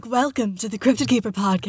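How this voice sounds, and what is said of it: Sultry phone secretary voice. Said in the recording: “It's like it's not like my regular speaking voice, though ... It's like my sexy phone secretary voice. ... It's very different”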